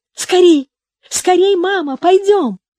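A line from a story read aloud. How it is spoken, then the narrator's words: Cheerful shout. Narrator (Russian): весело закричала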